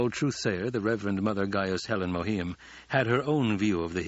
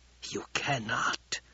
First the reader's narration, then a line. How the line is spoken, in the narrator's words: whispered